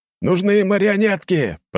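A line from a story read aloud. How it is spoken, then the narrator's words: Shout. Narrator (Russian): прокричал кто-то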